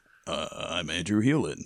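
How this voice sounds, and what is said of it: Deeper, enunciated imitation of another person. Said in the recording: “They just enunciate and speak deeper. ... that's me doing Andrew Healan. ... your Andrew Healan is very similar to your James Lipton”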